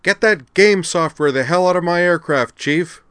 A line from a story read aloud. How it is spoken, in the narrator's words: she yelled to Frampton